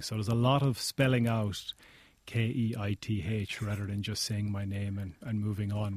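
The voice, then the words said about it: Pleasant accented male speaking voice. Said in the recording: “I think you have a beautiful accent”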